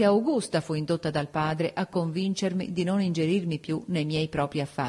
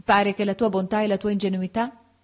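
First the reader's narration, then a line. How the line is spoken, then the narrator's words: Plain. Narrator (Italian): mi disse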